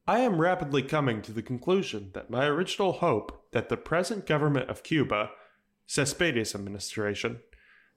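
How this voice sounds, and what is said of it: Imitates another person's voice. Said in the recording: “going to do a Wells voice”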